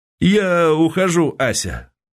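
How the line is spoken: Forced, fearful cheerfulness. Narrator (Russian): боясь этого, боясь себя и ее, по-дурацки бодро, так показалось ему, выговорил

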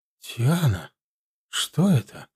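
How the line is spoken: Whisper in silence. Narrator (Russian): прошептала в полной тишине Галия

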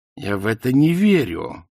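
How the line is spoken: Growled. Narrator (Russian): прорычала Канина

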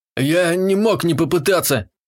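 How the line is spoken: Moaning between howls of pain. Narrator (Russian): Простонал заломленный между подвываниями

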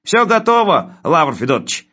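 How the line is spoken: Cheerful, from afar. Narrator (Russian): бодро сообщил он оттуда

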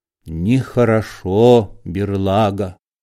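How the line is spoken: Cold. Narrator (Russian): холодно сказал Лапидус

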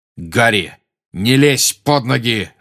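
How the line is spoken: Growling. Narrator (Russian): рычал Сириус

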